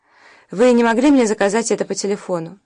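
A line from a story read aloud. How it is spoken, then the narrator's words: Irritated question. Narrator (Russian): раздраженно спросила та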